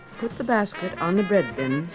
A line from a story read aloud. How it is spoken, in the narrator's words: said the wolf